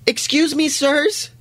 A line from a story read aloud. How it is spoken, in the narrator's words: A voice calls out, cracking nervously